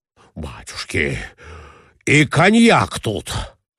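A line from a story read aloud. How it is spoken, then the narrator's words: Exclaiming. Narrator (Russian): воскликнул Николай Иванович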